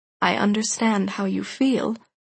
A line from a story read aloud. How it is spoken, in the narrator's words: he said softly